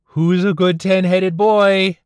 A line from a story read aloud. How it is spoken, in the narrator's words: She hollered